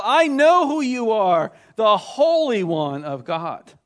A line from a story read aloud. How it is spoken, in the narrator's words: this demon shouted out